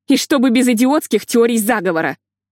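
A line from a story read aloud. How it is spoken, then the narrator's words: Snapped. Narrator (Russian): огрызнулась Лили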